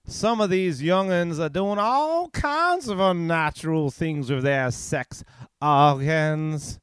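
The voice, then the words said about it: Put-on Southern American accent. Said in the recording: “I'll read it in my Southern American accent.”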